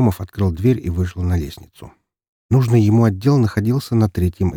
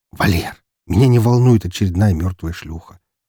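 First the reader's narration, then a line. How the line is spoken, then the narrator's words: Sigh. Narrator (Russian): вздохнул Громов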